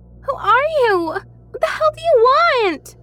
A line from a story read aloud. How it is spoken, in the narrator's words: yelled